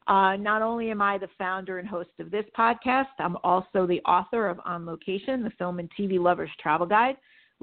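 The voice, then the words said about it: Slightly hoarse voice. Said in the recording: “I'm a little hoarse tonight, and that's because I've been yelling”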